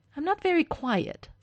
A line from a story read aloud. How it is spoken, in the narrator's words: Stiles snaps